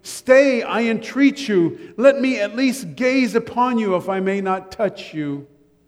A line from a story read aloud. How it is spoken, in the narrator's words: he exclaimed